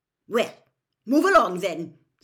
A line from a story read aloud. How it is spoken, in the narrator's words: said Professor McGonagall sharply to the bedraggled crowd